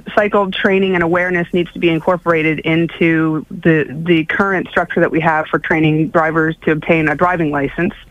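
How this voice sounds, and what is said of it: American accent. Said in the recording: “I'm detecting an accent from yours, is that Canadian? ... No, it's American.”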